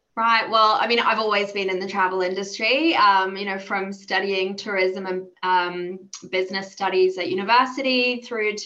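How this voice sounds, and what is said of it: Australian accent. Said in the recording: “You might hear from my accent. I am Australian”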